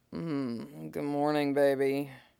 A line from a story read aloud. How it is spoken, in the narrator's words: Jason mumbled, sighed out, woken by Tim's movement